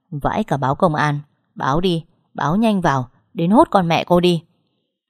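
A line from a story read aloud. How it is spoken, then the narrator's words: Dry scornful laugh. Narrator (Vietnamese): Đạt cười nhạt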